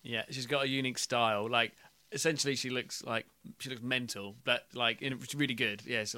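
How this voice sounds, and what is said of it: Usual voice. Nothing is said of it.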